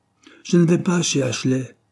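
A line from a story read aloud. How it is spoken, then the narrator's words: Angry exclamation. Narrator (French): s'écria Cyril, que la seule mention de ce nom mettait toujours en colère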